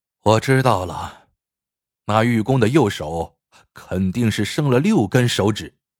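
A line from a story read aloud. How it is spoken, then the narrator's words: Despairing sigh. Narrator (Chinese): 陆子刚面如死灰，叹道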